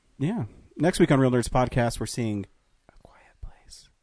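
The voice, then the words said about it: Whispering. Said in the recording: “I can't hear you... Why are you whispering?”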